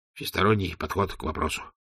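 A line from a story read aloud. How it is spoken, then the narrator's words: Mutter. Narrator (Russian): пробормотал он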